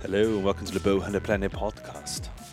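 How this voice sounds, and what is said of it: Odd put-on voice. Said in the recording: “did a different weird voice.”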